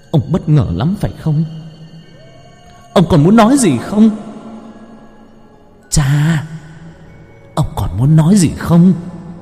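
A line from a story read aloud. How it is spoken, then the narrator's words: Hissed through teeth. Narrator (Vietnamese): Lam rít lên qua kẽ răng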